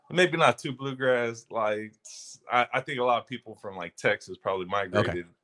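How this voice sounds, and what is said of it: Slight country twang. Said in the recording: “You got a little twang too.”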